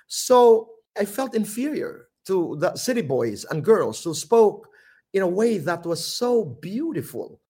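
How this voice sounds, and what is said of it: Filipino regional Samar accent. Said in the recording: “we have regional accent ... In the Philippines ... Samar, we have a quaint Irish brogue. It's a quaint accent ... we pronounce E as E, O, U ... my accent”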